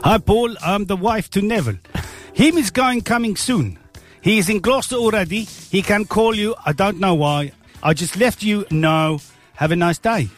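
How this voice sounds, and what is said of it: Put-on South African accent. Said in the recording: “if you put it in the South African accent, you read that in a South African accent ... South African ... accent.”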